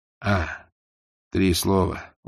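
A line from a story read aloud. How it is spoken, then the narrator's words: Tired. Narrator (Russian): устало сказал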